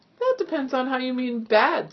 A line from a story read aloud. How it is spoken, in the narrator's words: said Jonathan, chuckling